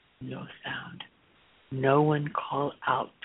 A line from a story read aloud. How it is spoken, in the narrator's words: the Phoenician ordered in a low voice